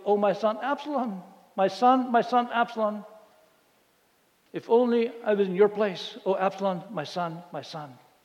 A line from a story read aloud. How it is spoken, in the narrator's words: he cried out